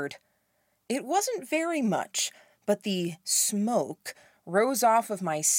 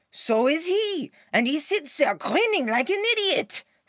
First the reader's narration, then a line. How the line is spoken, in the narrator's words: Scale roared